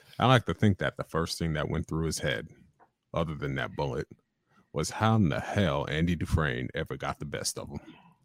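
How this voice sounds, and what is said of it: Morgan Freeman impression. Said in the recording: “do one of Morgan Freeman's lines from Shawshank Redemption”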